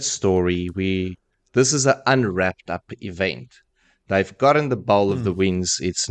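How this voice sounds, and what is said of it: Usual voice. Nothing is said of it.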